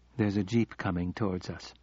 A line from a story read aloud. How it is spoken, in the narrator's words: she said calmly